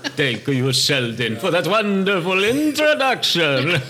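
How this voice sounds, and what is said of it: Count-like vampire character voice. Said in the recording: “You sound like the Count. ... One bad impression. Two bad impressions.”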